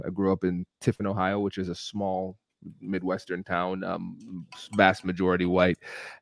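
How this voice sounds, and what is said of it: American accent, code-switched business voice. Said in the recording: “this is me code switching. This is my business American accent”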